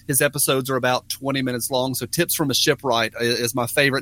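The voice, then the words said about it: Tennessee accent, fast talking. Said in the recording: “Tennessee. Okay, hence the accent... you're, you're pretty quick... definitely probably one of the fastest talking guests that we've had”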